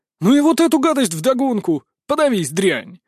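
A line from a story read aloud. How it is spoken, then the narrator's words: Barking angrily. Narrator (Russian): Рявкнул старший сын дома Демидовых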